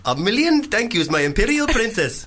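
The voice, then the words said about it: Put-on Indian accent. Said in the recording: “Indian ... It's not so much the accent that's racist, is it? It's more the content.”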